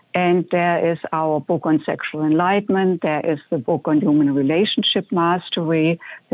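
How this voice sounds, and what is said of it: German accent. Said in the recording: “is the accent that I'm hearing, is that like Irish or Puerto Rican? ... It's German ... It's lovely.”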